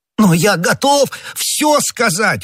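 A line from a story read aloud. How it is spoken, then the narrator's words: Exclamation. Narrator (Russian): воскликнул Бонасье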